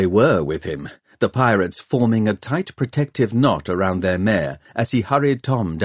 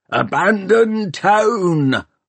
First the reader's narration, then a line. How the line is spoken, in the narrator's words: hollered Peavy